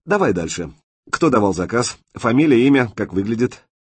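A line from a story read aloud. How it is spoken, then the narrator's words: Grim smirk. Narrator (Russian): Мячик мрачно усмехнулся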